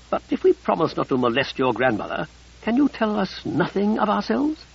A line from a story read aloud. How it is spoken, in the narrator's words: Josh scoffed